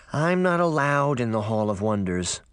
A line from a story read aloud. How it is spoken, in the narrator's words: Sabrina sighed